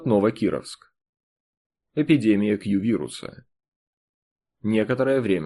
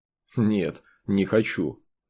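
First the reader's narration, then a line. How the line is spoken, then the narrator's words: Plain. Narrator (Russian): ответил заключенный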